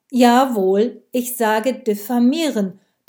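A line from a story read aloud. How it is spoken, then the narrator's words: Loud, talking over someone. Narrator (German): bemühte sie sich, Steinbrech zu übertönen, der zu brummen begonnen hatte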